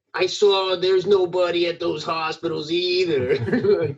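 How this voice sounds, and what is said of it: Imitates another person's voice. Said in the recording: “my Wolfie Gladly impression”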